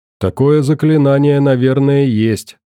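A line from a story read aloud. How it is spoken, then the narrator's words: Calm reply. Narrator (Russian): также спокойно ответил Федор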